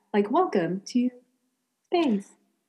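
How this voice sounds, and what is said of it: Robot voice, stilted. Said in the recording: “very good, very good robot voice ... stilted in some way”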